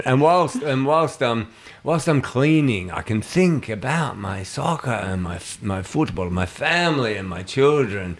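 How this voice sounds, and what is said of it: Put-on Argentinian accent. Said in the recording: “I'm trying to do his accent again.”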